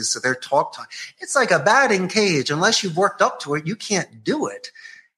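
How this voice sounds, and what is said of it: Philadelphia-tinged Spanish accent. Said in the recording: “I got like the Philly Spanish accent”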